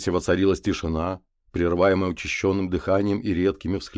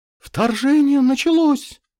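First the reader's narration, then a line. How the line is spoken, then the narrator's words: Shrieking in a strange voice. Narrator (Russian): Не своим голосом завопила Леся Туинова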